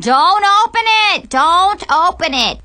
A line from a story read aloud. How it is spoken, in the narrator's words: everyone in the audience is yelling